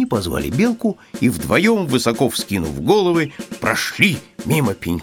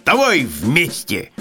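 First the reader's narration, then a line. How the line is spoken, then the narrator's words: Hedgehog shouting. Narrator (Russian): крикнул ежик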